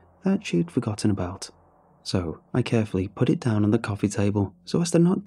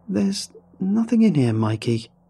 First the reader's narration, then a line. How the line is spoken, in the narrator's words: said angrily